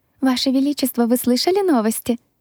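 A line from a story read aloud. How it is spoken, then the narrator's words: Cheerful enthusiastic chirping. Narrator (Russian): Леди Таффин радостно щебетала, и ее голос был полон энтузиазма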